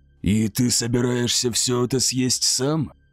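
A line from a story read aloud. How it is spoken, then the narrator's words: Hoarse, hungry question. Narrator (Russian): Хрипло поинтересовался он, слишком голодный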